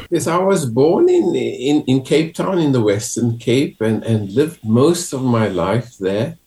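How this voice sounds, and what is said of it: South African accent. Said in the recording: “we can tell from your accent that uh, you're not from Ireland. You're not from the UK you're from South Africa”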